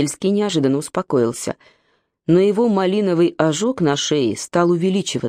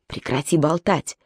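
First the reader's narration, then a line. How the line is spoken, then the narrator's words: Commanding whisper. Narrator (Russian): Шепот Зарембы прозвучал, как крик приказа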